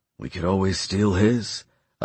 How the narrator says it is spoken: I whispered

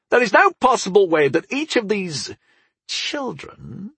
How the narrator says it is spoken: he sneered

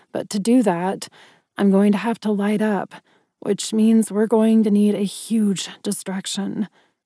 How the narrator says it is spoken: I mumbled

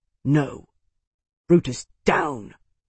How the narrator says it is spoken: muttered

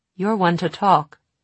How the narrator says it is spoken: Tessa said in a trembling voice

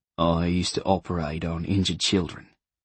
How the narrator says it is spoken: he said quietly, as if in explanation for the drink, the rundown cottage, the life in exile, and the acres of pain he carried with him

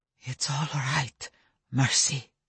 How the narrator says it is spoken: said Stefan, his voice still whisper thin

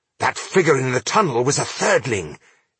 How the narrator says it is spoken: Ironheart exclaimed

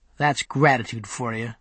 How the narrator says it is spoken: Mark grumbled

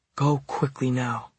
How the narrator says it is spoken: she whispered

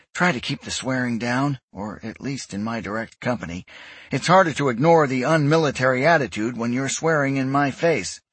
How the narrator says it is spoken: said wearily

